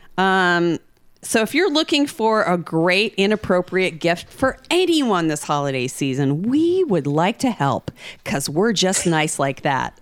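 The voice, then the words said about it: Polished radio announcer voice. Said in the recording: “radio voice ... is my fucking radio on? ... I did put my radio voice on a little bit there”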